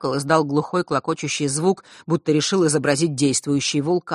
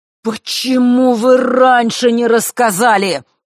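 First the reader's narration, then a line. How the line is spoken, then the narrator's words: Sudden thunderous voice. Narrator (Russian): вдруг прогремел он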